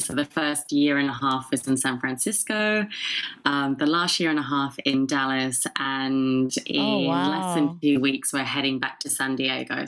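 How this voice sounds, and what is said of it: Non-American, mixed international accent. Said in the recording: “Your accent. ... It's not a typical Dallas accent.”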